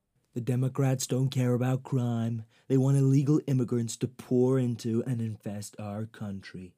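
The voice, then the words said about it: Poor imitation of another person's voice. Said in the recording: “my poor impression ... Told you it was bad”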